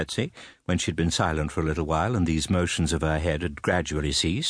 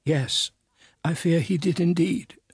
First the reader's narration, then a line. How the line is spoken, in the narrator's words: sobbed my mother